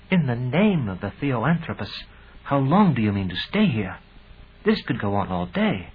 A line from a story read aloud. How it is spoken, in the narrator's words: Aja whispered to me